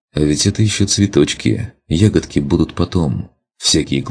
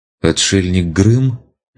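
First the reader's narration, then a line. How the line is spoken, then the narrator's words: Hesitant question. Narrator (Russian): неуверенно спросил я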